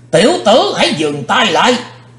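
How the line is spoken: Terrifying shout. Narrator (Vietnamese): có tiếng quát thật khiếp

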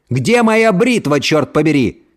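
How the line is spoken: Shouting again. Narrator (Russian): снова заорал Кент

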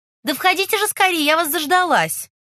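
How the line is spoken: Shouted. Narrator (Russian): На стук в дверь крикнула

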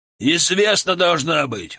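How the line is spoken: Growling captain. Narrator (Russian): рыкнул капитан

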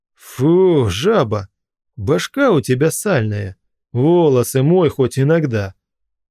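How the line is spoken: Plain. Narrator (Russian): сказал он

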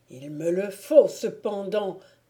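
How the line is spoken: Exclaimed. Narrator (French): s'écria-t-il

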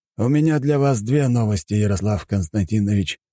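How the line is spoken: Sighing. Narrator (Russian): вздохнул Аксаханов

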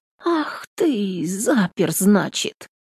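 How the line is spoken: Absent-minded mutter. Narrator (Russian): Пробормотала она, не думая, что говорит вслух

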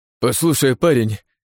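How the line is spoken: Moaning. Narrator (Russian): простонал Чак

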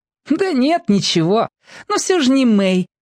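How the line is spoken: Giggled. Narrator (Russian): хихикнул Марко

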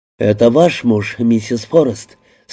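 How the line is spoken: Plain. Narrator (Russian): спросил Карелла

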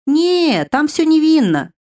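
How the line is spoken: Laughing. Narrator (Russian): рассмеялась Вивьера

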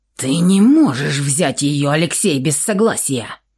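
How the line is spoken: Hissing. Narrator (Russian): прошипел тот самый, кто ее пугал

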